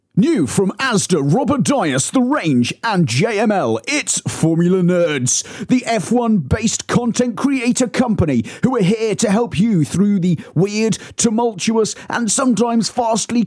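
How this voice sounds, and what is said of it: Announcer-style radio voice. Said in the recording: “in your best radio voice”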